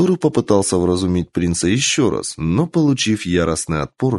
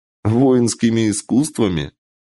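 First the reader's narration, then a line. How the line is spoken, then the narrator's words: Laughing. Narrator (Russian): Принц рассмеялся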